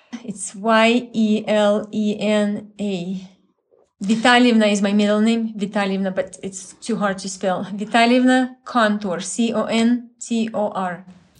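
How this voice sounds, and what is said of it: Deep Ukrainian accent. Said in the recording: “is from Ukraine. You can hear the deep, lovely accent in her voice.”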